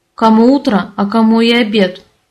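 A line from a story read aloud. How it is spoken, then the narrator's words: Grumbled reply. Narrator (Russian): Пробурчал мне в ответ Леони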